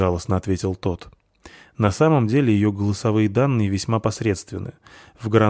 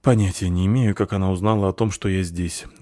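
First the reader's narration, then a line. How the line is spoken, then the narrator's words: Sigh. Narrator (Russian): вздохнул Вар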